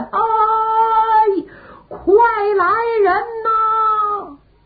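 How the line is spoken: Prolonged shouting. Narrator (Chinese): 喊了半天

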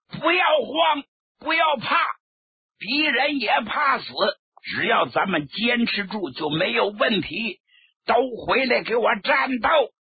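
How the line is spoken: Loud commanding shout. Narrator (Chinese): 朱德不愧是一员老将，高声喝喊

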